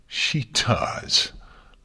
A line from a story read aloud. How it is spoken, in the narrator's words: Luna laughed bitterly